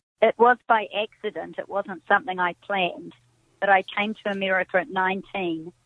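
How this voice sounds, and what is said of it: New Zealand accent. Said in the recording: “you have this wonderful accent. You're from New Zealand.”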